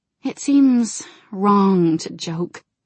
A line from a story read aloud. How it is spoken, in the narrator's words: Jaina said with a sigh